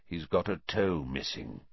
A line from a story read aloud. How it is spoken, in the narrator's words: said Black